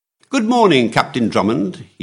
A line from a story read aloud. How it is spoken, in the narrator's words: he cried cheerfully